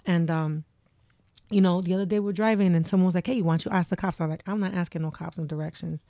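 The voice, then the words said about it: Thick Texas accent. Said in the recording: “my accent. My accent is ... thick as shit. That unmistakable accent.”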